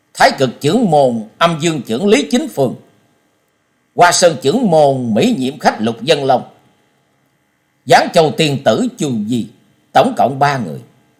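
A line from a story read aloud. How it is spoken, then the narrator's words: Loud repeating. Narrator (Vietnamese): Trần Lâm to tiếng lặp lại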